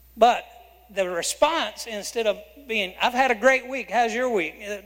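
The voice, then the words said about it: Southern American accent. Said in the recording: “some of you aren't from the South, so I'm sorry, I speak Southern. I hope you can understand me.”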